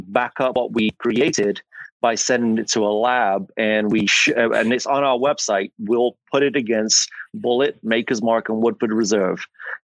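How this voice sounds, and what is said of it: English accent. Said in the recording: “as you can tell from my accent, I am not from America. I'm English”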